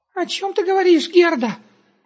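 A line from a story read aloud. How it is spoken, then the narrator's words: Frightened squeak. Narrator (Russian): пискнул перепуганный Густав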